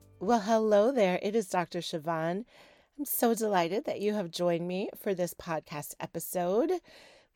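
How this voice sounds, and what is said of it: Raspy, crackly voice. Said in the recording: “my voice is a little bit different. It is more raspy than normal ... a little bit of raspiness ... it like skips octaves and it gets really, really crackly”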